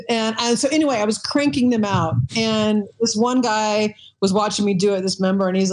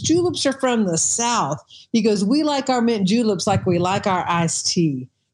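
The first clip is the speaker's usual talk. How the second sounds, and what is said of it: Thick Southern accent. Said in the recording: “he had this really thick accent”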